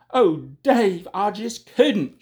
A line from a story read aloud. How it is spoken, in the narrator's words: cried